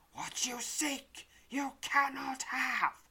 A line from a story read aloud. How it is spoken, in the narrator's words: hisses, a fiendish grin broadening